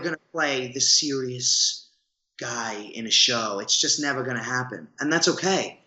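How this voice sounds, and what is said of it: Thick accent. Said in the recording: “I have this thick accent.”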